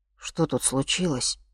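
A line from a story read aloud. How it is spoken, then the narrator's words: Low-voiced question. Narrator (Russian): спросил Мишка вполголоса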